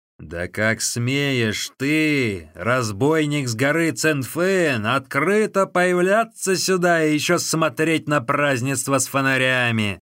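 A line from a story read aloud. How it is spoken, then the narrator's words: Shouting. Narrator (Russian): закричал Лю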